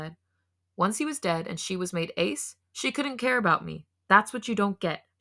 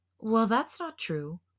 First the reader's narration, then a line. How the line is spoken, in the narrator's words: Hoseok groaned